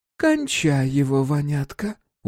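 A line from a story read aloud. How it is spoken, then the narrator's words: Tired mother. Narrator (Russian): устало сказала мать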